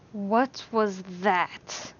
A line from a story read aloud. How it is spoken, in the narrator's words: Alan hissed